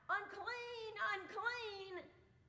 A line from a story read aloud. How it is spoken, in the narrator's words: shout